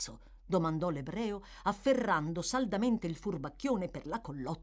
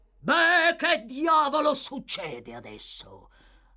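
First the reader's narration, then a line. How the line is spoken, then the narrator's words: Deep growl. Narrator (Italian): ringhiò una voce profonda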